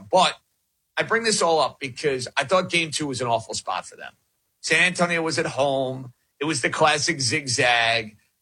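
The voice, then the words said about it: New York accent. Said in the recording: “You can tell by the dialect I'm a New York guy.”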